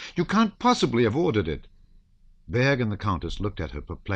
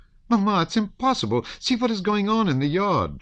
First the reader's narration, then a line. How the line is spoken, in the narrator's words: she cried